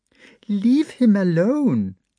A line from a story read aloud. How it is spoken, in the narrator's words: said Maria Hendrikovna, smiling timidly and happily